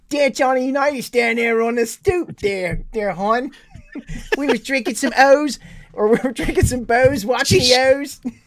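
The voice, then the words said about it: Put-on Baltimore accent. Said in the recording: “you're doing the accent all wrong ... Baltimore native ... That sounds like my grandmother.”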